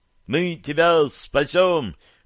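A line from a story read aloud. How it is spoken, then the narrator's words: Group shout. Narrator (Russian): крикнули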